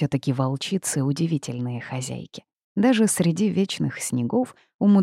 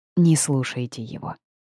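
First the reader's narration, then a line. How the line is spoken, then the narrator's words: Soft. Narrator (Russian): мягко проговорила Аура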